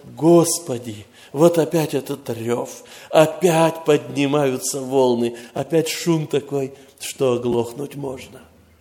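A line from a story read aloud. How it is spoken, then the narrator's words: Slightly plaintive. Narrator (Russian): Оно звучит как-то даже немножко как бы жалобно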